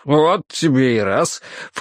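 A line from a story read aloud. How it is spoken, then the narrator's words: Snorted. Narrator (Russian): фыркнул Грейтхаус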